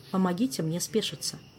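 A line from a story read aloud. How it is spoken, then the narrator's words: Quiet, serious. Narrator (Russian): тихо и серьезно произнес министр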